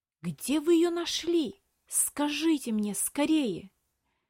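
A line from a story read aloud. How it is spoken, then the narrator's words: Strained whisper, boy. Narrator (Russian): С трудом сдерживая, прошептал мальчик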